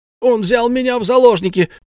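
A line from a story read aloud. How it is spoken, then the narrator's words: Quick shout. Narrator (Russian): тут же крикнул Арни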